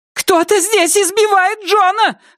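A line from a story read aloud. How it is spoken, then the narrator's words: Shout. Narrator (Russian): закричала Шейла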